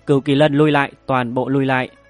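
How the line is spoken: Urgent, loud. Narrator (Vietnamese): Mộng Kỳ Lân Diệp Tinh Tú vội vàng lớn tiếng nói

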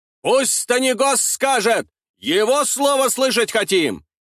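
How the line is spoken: Crowd shouting. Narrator (Russian): кричали из толпы

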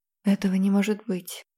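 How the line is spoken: Quiet dragon voice. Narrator (Russian): тихо сказал дракон

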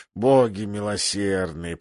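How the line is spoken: King's anguished mutter. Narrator (Russian): пробормотал король в муке

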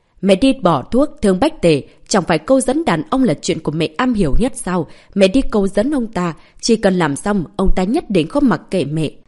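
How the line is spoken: Loud, exasperated. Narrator (Vietnamese): Văn Thiến Thiến chỉ tiếc diện sắt không thành thép, lớn tiếng nói

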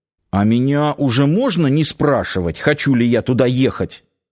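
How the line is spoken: Sulky mutter. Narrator (Russian): буркнул надувшийся Нанос

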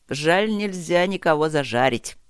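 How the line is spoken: Short laugh. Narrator (Russian): хохотнул Чет

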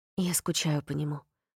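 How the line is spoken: Muffled mumble. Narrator (Russian): пробормотал Рин, уткнувшись матери в плечо

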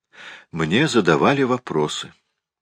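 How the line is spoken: Indifferent tone. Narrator (Russian): ответила она безразличным тоном

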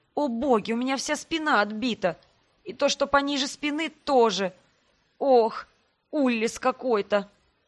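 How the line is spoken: Moaning in pain. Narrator (Russian): Простонала я, так как в эту минуту попыталась пошевелиться, и от копчика вверх по позвоночнику стрельнула болью

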